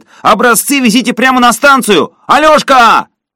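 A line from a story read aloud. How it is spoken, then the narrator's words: Shout after them. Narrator (Russian): парень крикнул им вслед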